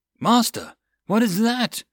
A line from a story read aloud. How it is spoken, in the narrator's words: The lookout cried